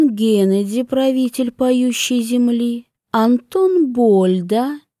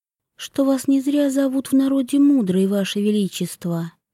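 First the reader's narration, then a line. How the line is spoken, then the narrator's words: Quiet. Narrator (Russian): тихо проговорила Вивьен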